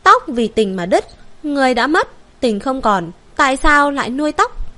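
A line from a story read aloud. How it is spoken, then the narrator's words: Quiet sad murmur. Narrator (Vietnamese): Thần hậu hơi cúi mắt, đột nhiên khẽ nói nhỏ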